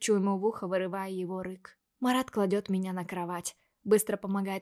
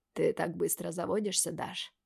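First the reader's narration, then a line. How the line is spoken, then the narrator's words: Hoarse voice. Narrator (Russian): говорит хриплым голосом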